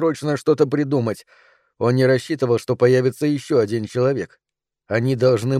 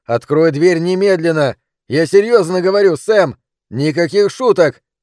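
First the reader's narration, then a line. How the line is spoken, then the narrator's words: Father shouting from hidden room. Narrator (Russian): кричал папа из потайной комнаты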